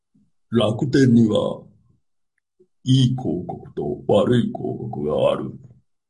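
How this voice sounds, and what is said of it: Unconvincing impression, just a lowered voice. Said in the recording (Japanese): “モノマネですか？... 今がモノマネ。ハギーのモノマネだったんですけど。... 全然似てないですね。... ただ声低いだけみたいなね。”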